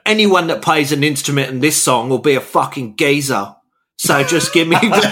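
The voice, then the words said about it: Put-on British geezer accent. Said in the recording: “You sound like you should be in the Streets cover band when you talk like that. ... That's the only pop accent. ... my Oasis bass player accent”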